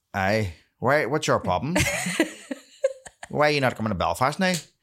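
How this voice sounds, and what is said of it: Put-on Belfast accent. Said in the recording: “they usually say in a Belfast accent”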